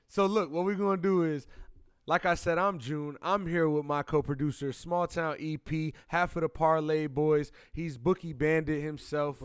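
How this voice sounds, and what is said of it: Loud, yelling announcer intro voice. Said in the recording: “I'm using my intro voice. ... I feel like I'm yelling at you.”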